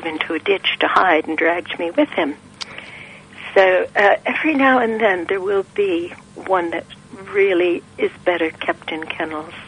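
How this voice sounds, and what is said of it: American accent, relaxing voice. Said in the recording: “you have the most amazing accent ... I'm from Detroit ... you've just got a nice little, just a really relaxing voice ... Lovely, relaxing.”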